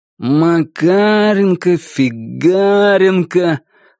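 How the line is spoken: Drawn-out drawl. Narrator (Russian): в растяжечку протянул Багон

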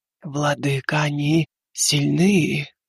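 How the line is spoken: Muffled moan, head down. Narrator (Russian): Глухо простонала шелковая тень, не поднимая головы

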